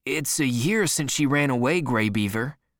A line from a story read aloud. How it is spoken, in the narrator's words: said another man